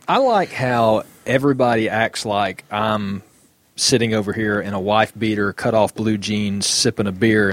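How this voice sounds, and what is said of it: Southern drawl accent. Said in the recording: “southern, drawly, redneck kind of accent”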